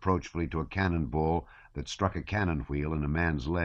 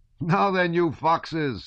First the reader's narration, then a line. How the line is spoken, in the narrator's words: said another, laughing